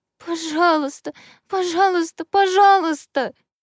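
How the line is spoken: Sobbing, pleading. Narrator (Russian): всхлипывала лекарка

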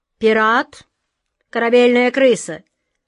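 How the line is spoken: Stern command. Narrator (Russian): строго приказала атаман Джина

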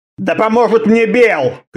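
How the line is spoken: Shouted. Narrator (Russian): крикнул

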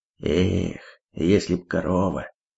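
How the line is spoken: Sighing. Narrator (Russian): вздохнул колдун

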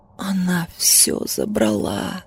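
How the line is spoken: Quiet reply. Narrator (Russian): так же тихо ответила я

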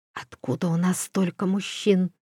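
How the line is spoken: Drowsy whispered question. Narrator (Russian): шепотом спросила она Доридана, немного придя в себя после долгого сна

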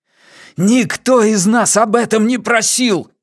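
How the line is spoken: Shouting. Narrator (Russian): закричал он

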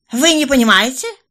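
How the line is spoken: Angry snort. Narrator (Russian): злобно фыркнула арестованная

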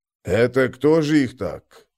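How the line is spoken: Muttering. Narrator (Russian): пробормотал Кофа

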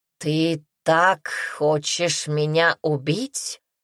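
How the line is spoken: Plain question. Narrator (Russian): спросил Аймери

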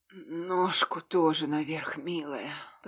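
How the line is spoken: Hoarse whisper in ear. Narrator (Russian): прохрипел ей на ушко

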